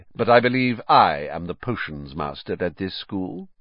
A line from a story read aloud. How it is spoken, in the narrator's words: said Snape, icily